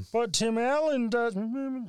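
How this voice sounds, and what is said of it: Kermit the Frog-style character voice. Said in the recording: “I love that voice ... That voice you just made ... Is that your Tim Allen voice? ... No, that's Kermit the Frog ... it's kind of a mix.”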